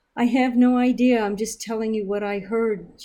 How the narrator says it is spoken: she cried

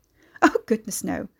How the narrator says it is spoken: Beverley Wend laughed

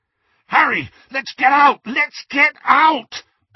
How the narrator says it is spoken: bellowed Ron

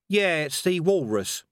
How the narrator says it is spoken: said Cohen evenly

